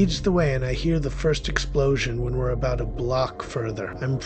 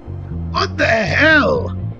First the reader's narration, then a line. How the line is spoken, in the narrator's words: cried the understandably frightened young man